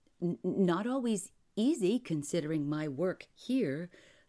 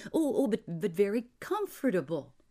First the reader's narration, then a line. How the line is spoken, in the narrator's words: he stammered hastily